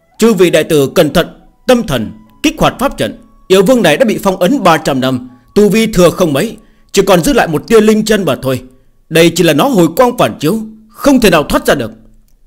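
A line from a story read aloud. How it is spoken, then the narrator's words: Sudden loud shout. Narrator (Vietnamese): Bỗng nhiên, Tiêu Kiếm Minh hét lớn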